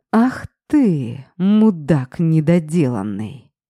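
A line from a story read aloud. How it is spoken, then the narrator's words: Angry hiss. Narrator (Russian): Прошипел зло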